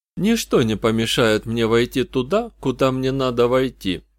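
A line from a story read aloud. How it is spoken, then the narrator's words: Calm. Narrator (Russian): спокойно объяснил Джуд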